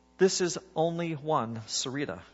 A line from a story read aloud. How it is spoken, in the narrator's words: said